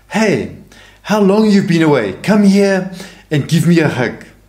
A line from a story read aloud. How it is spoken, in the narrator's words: Padre Pio called to him by name and exclaimed